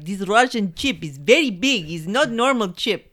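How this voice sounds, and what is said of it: Put-on Russian accent. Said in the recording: “his very bad accent ... That right there was better than the guy's Russian accent.”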